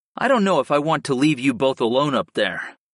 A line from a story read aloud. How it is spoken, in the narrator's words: I sighed